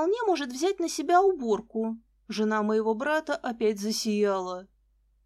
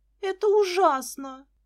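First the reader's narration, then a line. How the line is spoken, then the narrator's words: Moaning. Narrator (Russian): застонала Лиза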